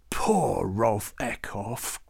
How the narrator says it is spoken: Klaus growled

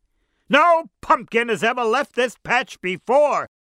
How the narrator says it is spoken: shouted his father

